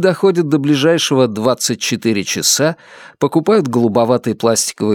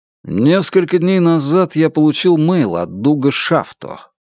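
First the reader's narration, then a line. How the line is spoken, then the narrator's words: Plain. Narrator (Russian): говорит Рэнди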